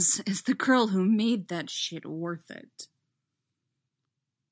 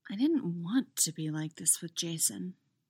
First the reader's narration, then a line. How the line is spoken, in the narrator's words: Chrissy murmurs